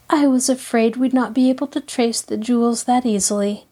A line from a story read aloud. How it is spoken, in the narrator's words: Nancy sighed